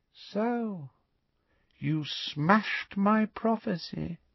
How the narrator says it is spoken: said Voldemort softly

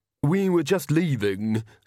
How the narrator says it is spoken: said Magrat haughtily

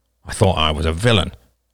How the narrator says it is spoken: grumbled

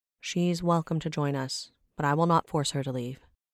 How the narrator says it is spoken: Brenora answered

